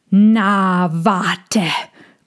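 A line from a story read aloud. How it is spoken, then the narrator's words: Growled. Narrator (German): knurrte Tommy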